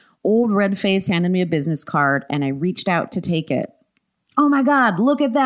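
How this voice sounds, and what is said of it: Usual voice. Nothing is said of it.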